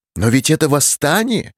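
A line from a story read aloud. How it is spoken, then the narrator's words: Exclamation. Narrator (Russian): воскликнул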